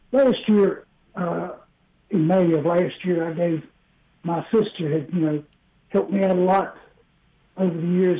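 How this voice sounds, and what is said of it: Rough, sick-sounding voice. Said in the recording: “Please excuse my voice. I'm trying to get over this COVID.”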